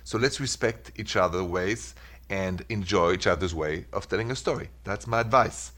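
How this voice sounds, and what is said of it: French accent. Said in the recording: “Sorry for the French accent.”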